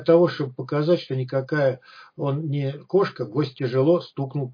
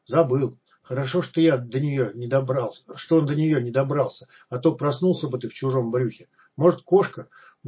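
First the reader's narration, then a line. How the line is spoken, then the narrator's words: Grumbling mutter. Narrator (Russian): буркнул зануда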